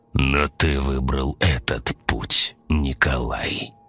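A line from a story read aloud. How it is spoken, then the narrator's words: Plain. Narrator (Russian): ответил Влас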